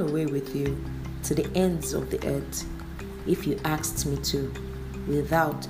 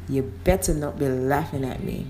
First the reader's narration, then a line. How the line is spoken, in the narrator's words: Bailey heard the chuckle and turned to ask